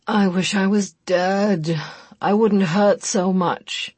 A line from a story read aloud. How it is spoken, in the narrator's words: Chris moaned forlornly in her ear